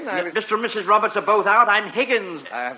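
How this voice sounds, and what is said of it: English accent. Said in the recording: “you're an English butler... My accent should make it obvious that I'm not from Dixie.”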